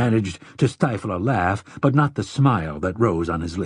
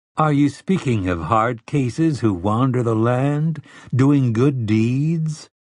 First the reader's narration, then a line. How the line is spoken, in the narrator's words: Telford asked in a gently mocking voice